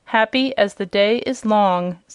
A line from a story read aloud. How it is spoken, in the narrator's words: said the king